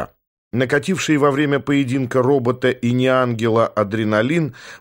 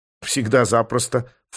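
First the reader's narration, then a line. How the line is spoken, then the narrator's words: Snorting. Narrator (Russian): фыркнула Марта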